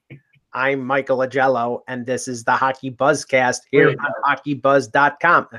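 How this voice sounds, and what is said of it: Flat robotic voice. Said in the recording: “doing my robot voice.”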